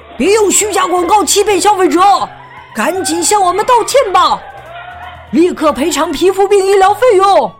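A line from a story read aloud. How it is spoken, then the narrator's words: Angry crowd shouting. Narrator (Chinese): 愤怒的人们正叫喊着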